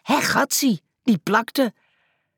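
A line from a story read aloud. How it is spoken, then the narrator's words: Startled cry. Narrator (Dutch): Muis riep geschrokken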